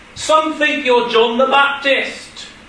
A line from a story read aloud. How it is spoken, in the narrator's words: All of a sudden, they started shouting out